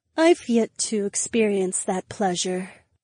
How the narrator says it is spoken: Daisy breathed

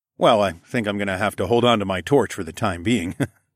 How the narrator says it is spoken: chuckled

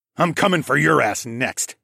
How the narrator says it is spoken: I growled

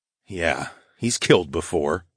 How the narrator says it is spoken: muttered darkly

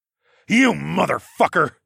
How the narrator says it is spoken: I growled

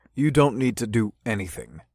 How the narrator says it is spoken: said firmly

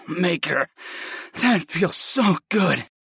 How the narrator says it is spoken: I groaned

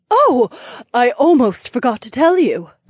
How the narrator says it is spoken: Aliona gasped

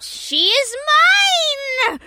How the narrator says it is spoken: Duchess Sobler screamed

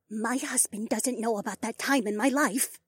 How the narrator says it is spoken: the woman said, just above a whisper

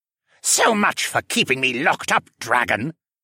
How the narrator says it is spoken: Dolian sneered

